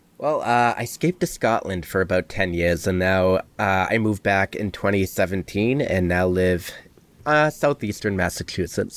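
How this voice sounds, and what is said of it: Boston accent. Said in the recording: “that accent, man. Where are you from? ... I'm from Boston”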